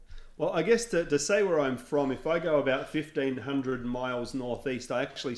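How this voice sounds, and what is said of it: Non-local foreign accent. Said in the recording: “You have an accent. ... You don't sound like you're from around here.”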